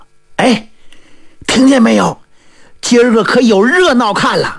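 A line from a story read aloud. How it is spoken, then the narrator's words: Crowd chattering. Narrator (Chinese): 老百姓可就议论上了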